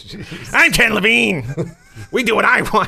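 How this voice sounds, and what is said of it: Whiny, nasal petulant voice. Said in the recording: “whiny voice ... He's got kind of a nasally voice ... Nah, not as nasally.”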